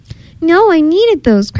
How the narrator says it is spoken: cried Bee Bear

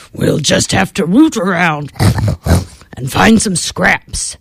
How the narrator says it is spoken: snorted Mr

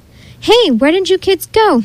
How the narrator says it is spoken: Miss Lindy shouted from just outside the shack

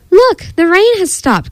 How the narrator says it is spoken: cried Froggy

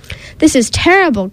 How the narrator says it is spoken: cried Verdi

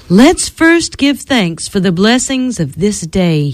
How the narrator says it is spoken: he said

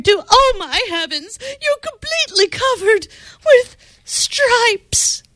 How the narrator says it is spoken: she screamed

